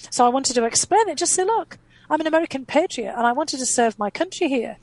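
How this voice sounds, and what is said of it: Distinctive non-American accent. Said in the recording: “I had a very distinctive accent. I don't sound like I'm, you know, from Minnesota or Maryland or Boston”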